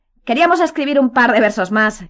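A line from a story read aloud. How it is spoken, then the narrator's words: Shout. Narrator (Spanish): gritó Malfoy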